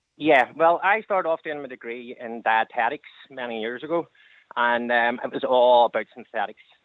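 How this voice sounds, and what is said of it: Noticeable regional accent. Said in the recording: “It's the accent.”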